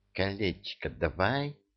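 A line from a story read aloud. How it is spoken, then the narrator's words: Hiss. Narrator (Russian): прошипел Ад Демирьяту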